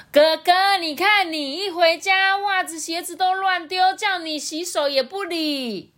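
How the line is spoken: Mother shouting from kitchen. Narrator (Chinese): 象妈在厨房大喊说

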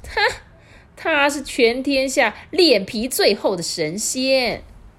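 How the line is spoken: Old woman roaring. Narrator (Chinese): 这老婆婆就大吼说

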